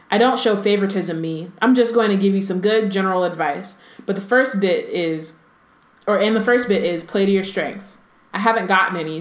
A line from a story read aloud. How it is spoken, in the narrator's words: said Harry